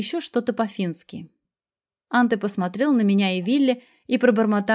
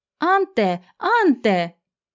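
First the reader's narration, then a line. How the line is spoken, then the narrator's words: Alarmed woman shouting. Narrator (Russian): встревоженный женский голос прокричал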